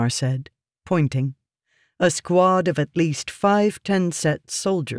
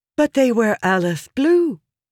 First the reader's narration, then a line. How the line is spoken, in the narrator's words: Yasna said eagerly